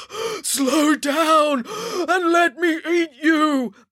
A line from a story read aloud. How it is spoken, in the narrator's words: bellowed the giant